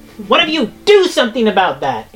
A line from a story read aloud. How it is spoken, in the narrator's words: It shouts down